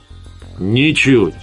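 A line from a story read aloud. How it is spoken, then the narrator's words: Cheerful speech. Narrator (Russian): Лас бодро сказал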